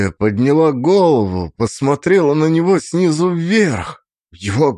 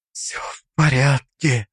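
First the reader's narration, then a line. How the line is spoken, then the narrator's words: Whispered. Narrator (Russian): прошептала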